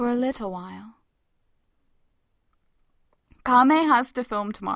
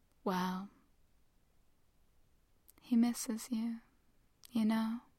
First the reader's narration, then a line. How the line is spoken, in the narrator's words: she says softly